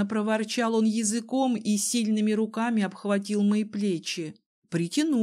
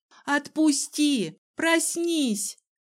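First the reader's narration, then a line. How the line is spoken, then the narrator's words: Shout. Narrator (Russian): крикнула я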